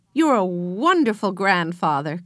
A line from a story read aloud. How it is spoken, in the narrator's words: cried Henry